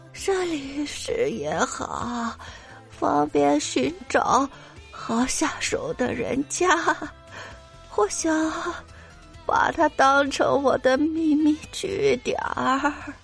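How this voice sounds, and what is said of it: Very faint, tiny voice. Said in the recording (Chinese): “用蚊子般的声音说”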